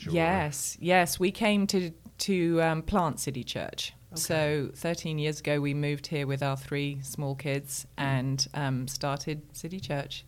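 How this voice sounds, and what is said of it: Speaks with a noticeable accent. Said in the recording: “you have such a great accent ... with your accent”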